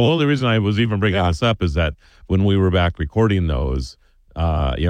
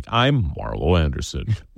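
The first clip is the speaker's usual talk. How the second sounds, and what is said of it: Lowered deep radio voice. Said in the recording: “why are you dropping your voice when you say your name? ... That's ... radio voice. ... you're like turning into Barry White over there”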